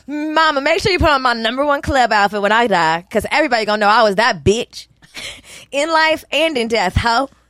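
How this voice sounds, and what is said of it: Put-on white country woman accent. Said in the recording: “Why do you sound like a white woman? A white country woman.”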